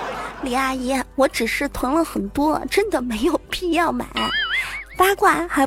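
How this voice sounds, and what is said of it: Usual voice. Nothing is said of it.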